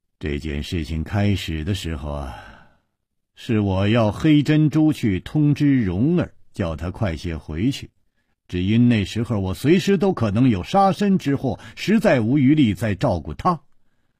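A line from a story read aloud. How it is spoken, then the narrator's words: Sighing. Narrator (Chinese): 楚留香叹了一口气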